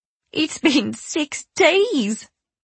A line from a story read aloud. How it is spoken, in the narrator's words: Roisin cried